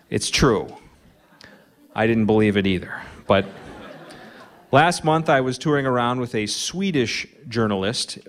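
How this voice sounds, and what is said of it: Minnesota accent. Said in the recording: “I have a Minnesota accent”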